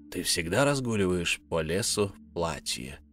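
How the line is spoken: Creaky rasping voice. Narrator (Russian): проскрипел некромант

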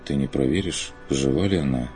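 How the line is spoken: Quiet. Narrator (Russian): тихо выговорил Курт

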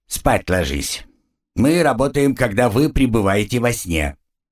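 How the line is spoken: Stern. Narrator (Russian): строго сказал

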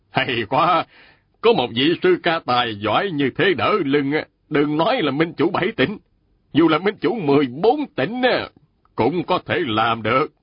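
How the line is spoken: Smiling. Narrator (Vietnamese): Mạnh Bá Phi mỉm cười nói

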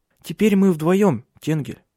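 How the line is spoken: Firm female voice. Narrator (Russian): сказала она твердым голосом

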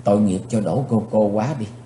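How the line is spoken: Pitying sigh. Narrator (Vietnamese): Chí Tôn buông tiếng thở dài

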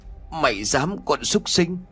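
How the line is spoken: Trembling breathless stammer. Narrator (Vietnamese): Lão Dũng run rẩy, lắp bắp không nói ra hơi

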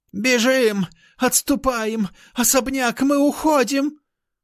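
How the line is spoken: Fat man yelling. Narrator (Russian): взвопил толстяк

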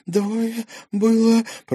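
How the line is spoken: Stunned hoarse rasp, young woman. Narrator (Russian): прохрипела девушка, ошарашенно

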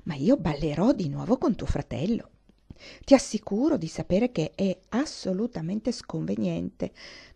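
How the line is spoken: Whispering. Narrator (Italian): bisbigliò Isabella

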